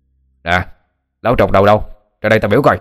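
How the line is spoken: Loud menacing shout. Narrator (Vietnamese): một đám người mặt mày hung tợn, tay cầm gậy gộc, đứng trước sân chùa mà hét lớn

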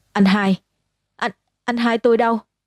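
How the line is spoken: Frightened scream. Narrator (Vietnamese): Tôi sợ hãi hét lên

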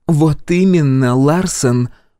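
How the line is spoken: Through gritted teeth. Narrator (Russian): процедила Новак

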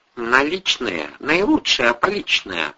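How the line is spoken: Mumbling. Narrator (Russian): пробормотала Мила Сергеевна

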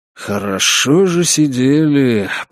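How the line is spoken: Grumbled. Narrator (Russian): проворчал Сергей

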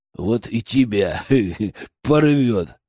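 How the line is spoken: Giggling. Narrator (Russian): хихикнул Михай

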